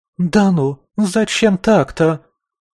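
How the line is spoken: Shrill squeal. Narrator (Russian): взвизгнула проводница

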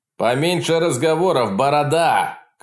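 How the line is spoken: Shouted. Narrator (Russian): крикнул человек в кожаном

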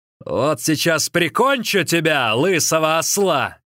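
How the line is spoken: Shouting. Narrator (Russian): крикнул тут Хуянчжо

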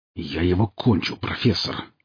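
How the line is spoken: Grumbling mutter. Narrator (Russian): пробурчал Борн

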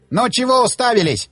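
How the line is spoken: Barked. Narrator (Russian): рявкнул он

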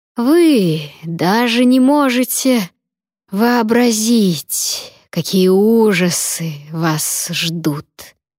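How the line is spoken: Breathy exhale. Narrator (Russian): выдохнул Клавер

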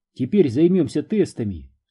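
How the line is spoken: Plain. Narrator (Russian): сказала она

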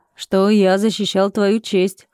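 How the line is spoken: Smirking. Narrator (Russian): хмыкнул я

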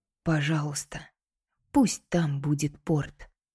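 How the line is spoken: Whisper. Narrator (Russian): шепнула

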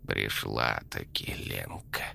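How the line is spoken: Creaky witch voice. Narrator (Russian): проскрипела ведьма

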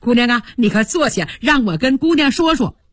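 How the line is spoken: Urgent calling. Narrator (Chinese): 急忙 紧着叫

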